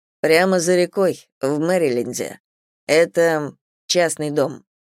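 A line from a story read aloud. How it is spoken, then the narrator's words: Detached tone. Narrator (Russian): сказал он достаточно отстраненным тоном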